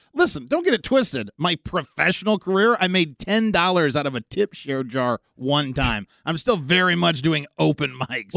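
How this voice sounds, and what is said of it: Loud, yelling, angry-sounding voice. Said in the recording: “Why do you sound angry? ... I'm yelling at him. ... He's yelling at everybody.”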